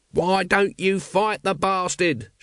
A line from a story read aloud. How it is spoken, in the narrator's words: shouted Nobby at the dwindling dragons